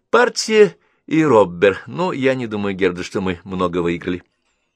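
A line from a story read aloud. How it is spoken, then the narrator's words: Relieved sigh. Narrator (Russian): облегченно вздохнув, Генриетта сказала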